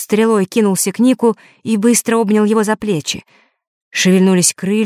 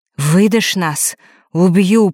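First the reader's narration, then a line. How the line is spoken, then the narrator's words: Hiss from nowhere. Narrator (Russian): прошипел из пустоты Фэш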